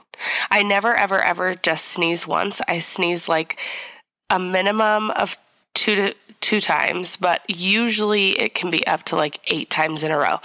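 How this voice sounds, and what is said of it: Hoarse, partly lost voice. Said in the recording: “my voice is half here, half gone... this super bloom allergy nonsense”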